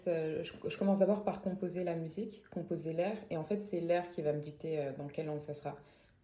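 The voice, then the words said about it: Parisian French accent. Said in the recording (French): “dans mon accent français, puisque euh, du coup, j'ai l'accent parisien.”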